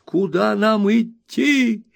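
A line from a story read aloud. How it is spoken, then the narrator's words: Alarmed crowd yelling. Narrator (Russian): вопили всполошившиеся пиквикисты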